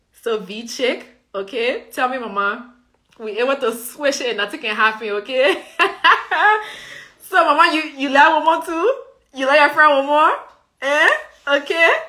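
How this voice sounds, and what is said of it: Liberian colloquial accent. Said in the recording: “I can code switch my accent in 2 seconds, less than 2 seconds flat ... I don't sound like this ... I speak my colloquial”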